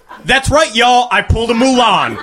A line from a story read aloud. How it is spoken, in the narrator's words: she yelled into the mic